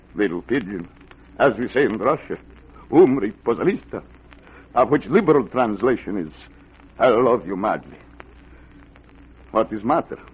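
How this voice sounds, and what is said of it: Fake Russian accent. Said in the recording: “the accent, the beard, she comes and goes. It's old Russian custom. ... You faker, you.”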